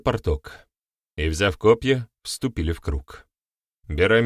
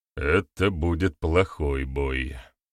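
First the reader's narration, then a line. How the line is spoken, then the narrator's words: Gloomy grumble. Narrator (Russian): хмуро пробурчал Барята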